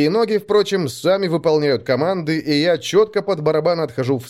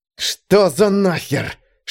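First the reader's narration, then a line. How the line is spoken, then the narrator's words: Hissed through teeth. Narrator (Russian): шиплю я сквозь зубы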